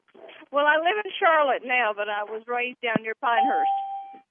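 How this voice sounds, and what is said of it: North Carolina Southern accent. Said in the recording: “you have a beautiful accent? ... Is that a North Carolina accent? ... it's as North Carolina as I can make it”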